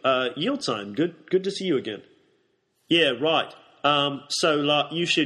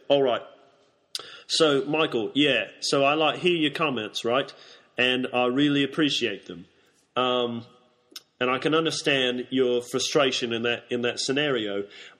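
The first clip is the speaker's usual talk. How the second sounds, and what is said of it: Put-on New Zealand accent. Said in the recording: “a different dialect of your accent ... Why am I New Zealand all of a sudden?”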